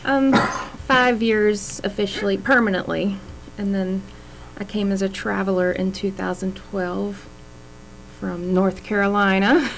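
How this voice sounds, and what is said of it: Southern US accent. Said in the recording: “That southern accent, did you notice?”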